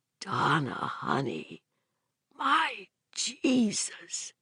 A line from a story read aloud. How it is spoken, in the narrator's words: he said softly